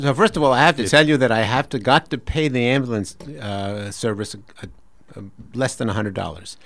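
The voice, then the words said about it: New York accent. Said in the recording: “told with a New York accent”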